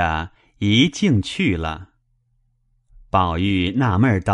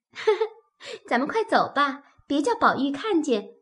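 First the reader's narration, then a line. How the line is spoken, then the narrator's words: Laughing. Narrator (Chinese): 又一个丫鬟笑道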